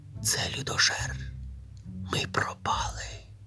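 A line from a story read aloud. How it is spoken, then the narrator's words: Several voices whispering. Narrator (Ukrainian): прошепотіли брати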